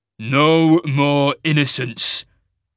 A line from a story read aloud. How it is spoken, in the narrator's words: Cain growled